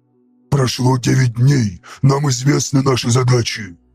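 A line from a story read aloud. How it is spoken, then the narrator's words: Growl. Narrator (Russian): рыкнул он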